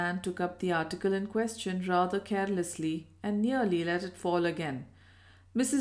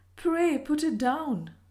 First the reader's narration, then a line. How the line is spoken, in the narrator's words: she said nervously